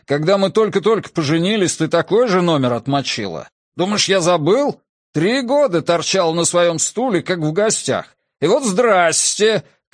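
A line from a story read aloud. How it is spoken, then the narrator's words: Breathless shouting. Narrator (Russian): кричал он, задыхаясь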